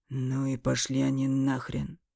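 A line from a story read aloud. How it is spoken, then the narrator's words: Grumbled through a napkin. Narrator (Russian): буркнул Эмиль, все еще прижимая к носу салфетку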